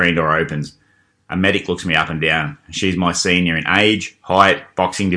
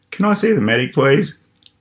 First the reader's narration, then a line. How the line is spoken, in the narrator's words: I ask in a whimper